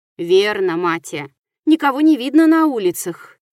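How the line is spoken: Sighing. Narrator (Russian): вздохнул Шуан

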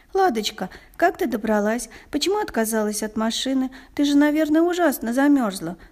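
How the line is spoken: Rapid chatter. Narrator (Russian): Затараторила она

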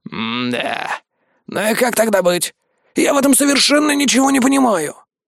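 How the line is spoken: Grumbling. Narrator (Russian): проворчал Владимир Григорьевич

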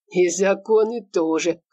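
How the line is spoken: Snorting. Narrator (Russian): хмыкнул Игорь

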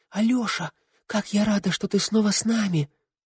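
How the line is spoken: Whispered exclamation. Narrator (Russian): она воскликнула почему-то шепотом

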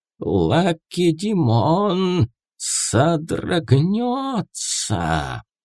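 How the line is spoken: Hissed. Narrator (Russian): прошипела Пифия

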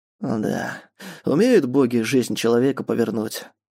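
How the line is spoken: Old man's heavy sigh. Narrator (Russian): тяжело вздохнул старик

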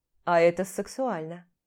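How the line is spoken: Snorting. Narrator (Russian): хмыкнул Костя

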